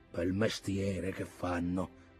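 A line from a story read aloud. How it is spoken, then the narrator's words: Muttered. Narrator (Italian): borbottava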